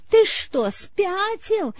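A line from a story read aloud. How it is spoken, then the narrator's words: Hysterical scream. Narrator (Russian): истошно закричала она, словно он и впрямь покушался на ее жизнь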